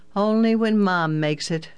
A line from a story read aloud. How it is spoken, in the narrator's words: Jim laughed